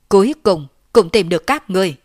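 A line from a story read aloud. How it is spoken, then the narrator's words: Loud, running. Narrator (Vietnamese): Lôi Tẩu một mặt chạy tới, một mặt lớn tiếng nói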